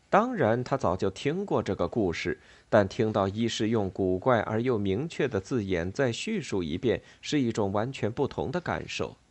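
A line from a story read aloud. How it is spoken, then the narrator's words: Gasping, amazed. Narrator (Chinese): 西蒙倒抽一口冷气，惊叹道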